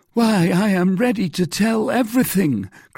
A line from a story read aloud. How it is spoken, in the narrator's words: cried Bonacieux